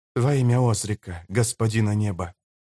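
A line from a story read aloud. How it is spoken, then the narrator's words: Soft whisper. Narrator (Russian): тихонько прошептал Йорруд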